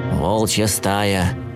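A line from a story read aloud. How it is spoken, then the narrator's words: Gloomy reply. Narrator (Russian): мрачно ответил Бернард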